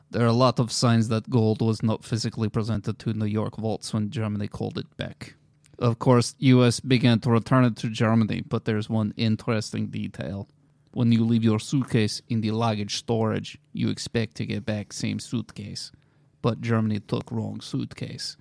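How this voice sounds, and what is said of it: Put-on Russian accent. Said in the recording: “I can do a pretty decent Russian accent.”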